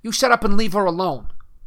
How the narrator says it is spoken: shouted Peeks

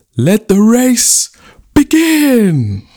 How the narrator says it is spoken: The chief cried out

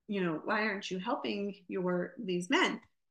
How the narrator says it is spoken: Washington quietly, you know, approaches the corporal, and he says

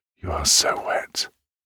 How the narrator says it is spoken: whispers like the devil into her ear

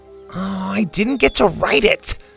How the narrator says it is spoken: Colin moaned

